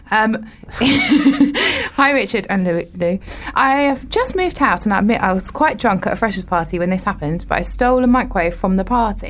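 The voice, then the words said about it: Formal reading-aloud voice. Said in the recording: “I'll do it in my best reading voice.”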